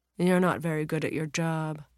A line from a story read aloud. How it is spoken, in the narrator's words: Zara replied dryly